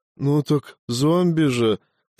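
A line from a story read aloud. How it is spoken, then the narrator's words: Babbling on. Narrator (Russian): продолжал лепетать свое Виктор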